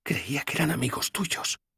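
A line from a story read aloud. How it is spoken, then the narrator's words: Whispering. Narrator (Spanish): susurró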